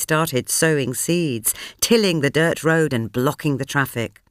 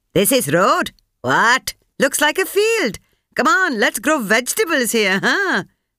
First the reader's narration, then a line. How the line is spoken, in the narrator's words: proclaimed loudly